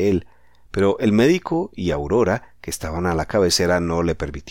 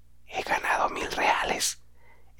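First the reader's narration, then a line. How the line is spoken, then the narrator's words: Barely audible murmur. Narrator (Spanish): Sus labios murmuraron de una manera imperceptible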